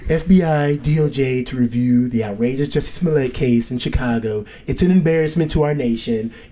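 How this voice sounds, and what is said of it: Imitates another person's voice. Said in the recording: “I got to do it in my Trump voice.”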